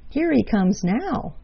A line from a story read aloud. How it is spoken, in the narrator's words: cried Jerry Muskrat